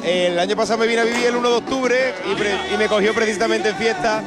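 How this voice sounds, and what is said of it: Andalusian accent from Cádiz. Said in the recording (Spanish): “¿Por qué ese acento? ... Yo soy de Cádiz, de un pueblo de Cádiz.”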